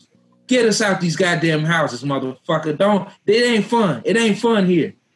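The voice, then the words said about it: Upset, ranting voice. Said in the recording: “You sound very upset. ... Super upset.”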